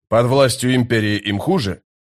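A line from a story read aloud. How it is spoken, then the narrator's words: Scoffing. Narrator (Russian): Историк хмыкнул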